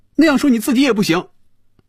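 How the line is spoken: Loud. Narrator (Chinese): 菲比大声说

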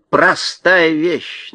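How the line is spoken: Mocking. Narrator (Russian): насмешливо ответила ворона

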